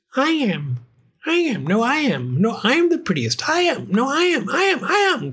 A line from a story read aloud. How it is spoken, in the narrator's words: cried the hundreds and thousands and millions and billions and trillions of voices, for each cat thought itself the prettiest